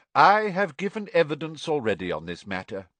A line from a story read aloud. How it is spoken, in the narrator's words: he said calmly